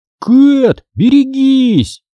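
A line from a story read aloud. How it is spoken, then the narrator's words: Shrill shriek. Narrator (Russian): взвизгнул он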